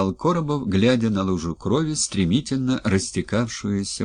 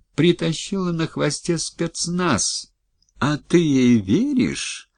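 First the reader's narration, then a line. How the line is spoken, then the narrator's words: Gentle, reproachful. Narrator (Russian): Все так же ласково и укоризненно говорил он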